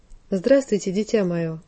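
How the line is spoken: Pleasant soft voice. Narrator (Russian): проговорил приятным мягким голосом

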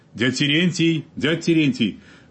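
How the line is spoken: Girl's sudden excited shout. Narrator (Russian): вдруг взволнованно крикнула какая девушка

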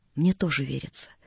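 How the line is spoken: Barely audible but firm. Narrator (Russian): чуть слышно, но твердо проговорила Наташа

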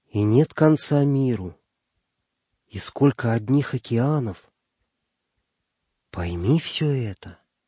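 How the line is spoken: Thoughtful drawl, to himself. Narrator (Russian): он раздумчиво протянул, как бы говоря сам с собой

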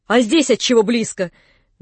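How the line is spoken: Rude, gleeful question. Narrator (Russian): грубо спросил он, как бы обрадовавшись возражению

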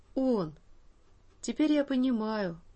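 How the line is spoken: Bewildered. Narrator (Russian): растерянно сказал Саша

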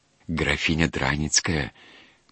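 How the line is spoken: Whispering. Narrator (Russian): прошептал отец Христофор

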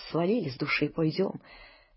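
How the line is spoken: Hurried whisper. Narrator (Russian): Горкин торопливо говорит шепотком

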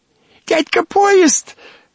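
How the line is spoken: Sudden shriek. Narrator (Russian): вдруг взвизгнула она

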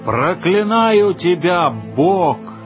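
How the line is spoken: Hoarse shouting. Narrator (Russian): Осипшим голосом он кричал

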